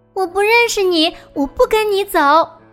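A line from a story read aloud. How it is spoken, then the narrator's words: Loud shout. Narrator (Chinese): 他高声喊道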